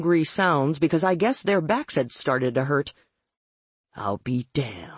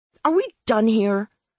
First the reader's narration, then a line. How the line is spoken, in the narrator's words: I snapped